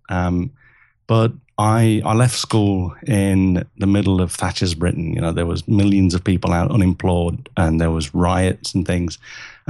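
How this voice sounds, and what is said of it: English accent. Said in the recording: “I was born in England, as you can tell from the accent.”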